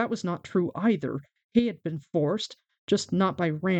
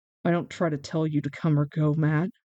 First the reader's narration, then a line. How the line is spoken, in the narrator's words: Rand said wearily